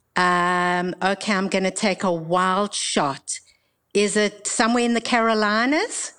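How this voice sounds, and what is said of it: Mixed British and Australian accent. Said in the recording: “why does it sound a little British, a little Australian? ... it's a little bit mixed up”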